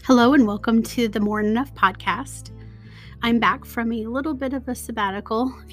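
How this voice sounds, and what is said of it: Voice affected by a cold. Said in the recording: “letting my body heal from a really nasty cold, if you can tell in my voice.”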